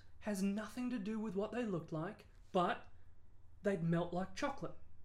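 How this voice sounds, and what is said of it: Australian accent growing heavier. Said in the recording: “I can feel your nationalism coming through here as your accent just appears ... the accent is going to get heavier and heavier”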